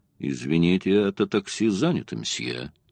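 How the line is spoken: Dry, curt. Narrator (Russian): Шерман сухо ему сказал

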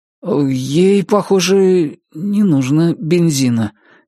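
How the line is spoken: Uncertain. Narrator (Russian): неуверенно сказал заправщик

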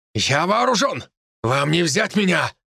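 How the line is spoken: Shouted. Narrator (Russian): выкрикнул

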